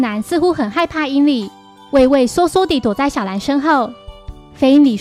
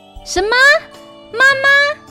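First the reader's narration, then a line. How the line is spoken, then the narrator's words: Shouting in disbelief. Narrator (Chinese): 柯南难以置信地大喊着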